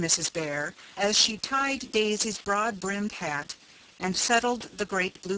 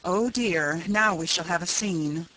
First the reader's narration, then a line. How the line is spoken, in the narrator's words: sighed Mrs